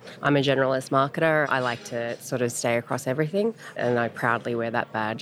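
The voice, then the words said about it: Australian accent. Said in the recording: “the accent. No, I don't just speak funny. I'm Australian.”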